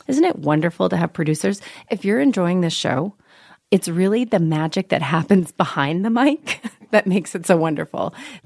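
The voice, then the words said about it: Crusty voice from a cold. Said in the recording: “I have a little bit of a cold today, so my voice is kind of crusty, and I have this perpetual coughing hack.”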